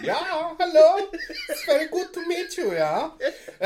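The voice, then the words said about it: Put-on German accent. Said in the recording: “I do a German accent... We do terrible accents”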